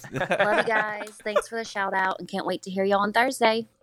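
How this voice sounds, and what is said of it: Southern accent. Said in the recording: “you can definitely tell that Pensacola swing... At the end of it?... She has that definitely a southern accent... She got that southern accent.”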